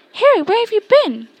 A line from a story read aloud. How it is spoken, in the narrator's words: Hermione squeaked